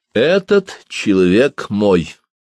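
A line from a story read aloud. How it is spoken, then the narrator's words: Plain. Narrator (Russian): сказал Язон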